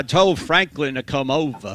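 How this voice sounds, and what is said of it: Billy Graham Southern accent impression. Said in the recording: “I could have the Billy Graham accent ... That's not bad. ... Yeah, that's not bad.”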